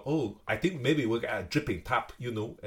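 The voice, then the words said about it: Put-on Chinese accent. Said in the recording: “that's my Chinese accent for you”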